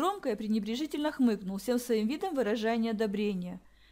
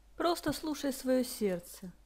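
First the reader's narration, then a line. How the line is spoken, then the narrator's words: Calm. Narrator (Russian): спокойно произнес отец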